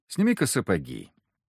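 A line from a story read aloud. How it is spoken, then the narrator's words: Quiet request. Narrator (Russian): негромко попросил я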